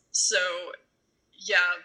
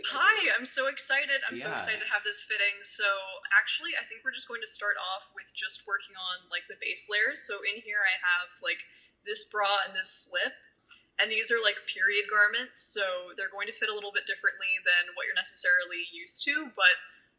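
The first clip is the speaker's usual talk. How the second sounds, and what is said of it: Upbeat customer-service voice. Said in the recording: “customer service voice ... A fitting voice ... a fitting persona”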